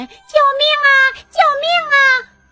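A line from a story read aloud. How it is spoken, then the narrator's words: Shouting. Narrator (Chinese): 它只好是一边喊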